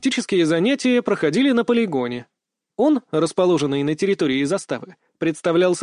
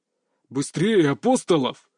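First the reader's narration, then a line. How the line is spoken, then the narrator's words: Growling instructor. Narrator (Russian): рычал инструктор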